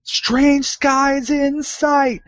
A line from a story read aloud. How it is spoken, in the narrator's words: barely hear from the crow's nest Dee Dee yelling down